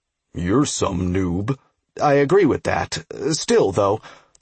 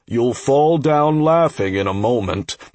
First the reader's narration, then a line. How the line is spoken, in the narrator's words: the ogre chuckled